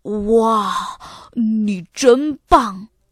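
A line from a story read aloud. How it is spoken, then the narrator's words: Admiring praise. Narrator (Chinese): 亚瑟忍不住赞叹说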